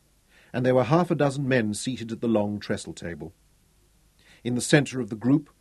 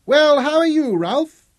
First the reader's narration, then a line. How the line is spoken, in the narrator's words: His voice was high and clear, incongruous in such a big body